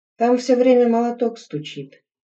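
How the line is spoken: Sigh. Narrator (Russian): вздохнула вторая

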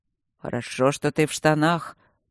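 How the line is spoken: Grumbling. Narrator (Russian): пробурчал он

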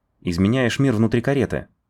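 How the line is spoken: Snort. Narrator (Russian): он хмыкнул

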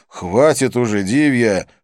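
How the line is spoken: Irritated interruption. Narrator (Russian): раздраженно прервал ее я

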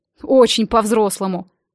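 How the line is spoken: Snort. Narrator (Russian): фыркнул он

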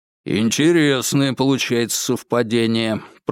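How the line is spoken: Muttering. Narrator (Russian): пробормотал шиповник

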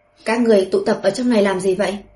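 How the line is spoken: Shouted question. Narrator (Vietnamese): Thư Tuyết Ngọc quát hỏi

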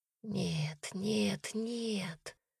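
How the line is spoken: Whispering. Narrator (Russian): зашептала Дарина

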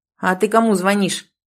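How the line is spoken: Snapping back. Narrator (Russian): огрызнулся

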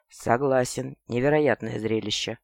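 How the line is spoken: Unexpectedly hoarse voice. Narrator (Russian): У Ринара голос был неожиданно хриплым

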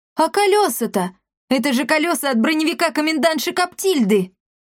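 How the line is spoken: Loud laughter. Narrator (Russian): расхохоталась

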